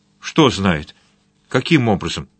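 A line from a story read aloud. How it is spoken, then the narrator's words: Quick speech. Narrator (Russian): быстро проговорил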